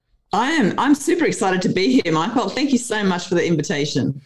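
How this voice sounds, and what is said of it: Australian accent. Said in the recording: “accent ... you're not from around here”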